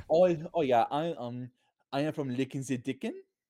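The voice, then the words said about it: Weird put-on German accent. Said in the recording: “with this weird ... German accent.”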